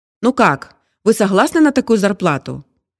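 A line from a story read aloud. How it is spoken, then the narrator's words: Cheerful. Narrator (Russian): весело подытожил собеседник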